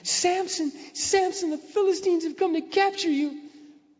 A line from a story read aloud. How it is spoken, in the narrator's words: Again she cried out